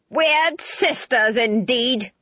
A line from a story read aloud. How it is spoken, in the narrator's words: Granny yelled